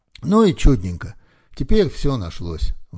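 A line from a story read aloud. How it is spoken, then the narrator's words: Fake enthusiastic exclamation. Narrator (Russian): воскликнул я с фальшивым энтузиазмом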